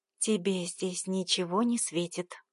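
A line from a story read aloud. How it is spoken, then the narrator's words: Whisper. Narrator (Russian): прошептала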